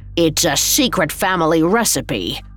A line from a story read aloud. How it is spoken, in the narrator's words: snarled